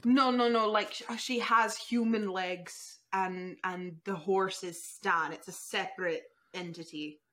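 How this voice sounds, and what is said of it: Put-on accent drifting inconsistently. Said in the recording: “This accent is going everywhere.”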